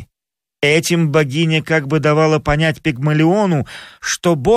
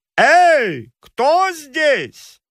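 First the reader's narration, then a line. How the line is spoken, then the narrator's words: Loud shout. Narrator (Russian): громко крикнул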